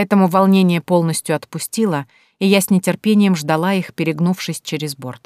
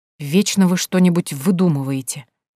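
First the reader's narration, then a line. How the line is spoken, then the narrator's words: Grumbling. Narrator (Russian): ворчал он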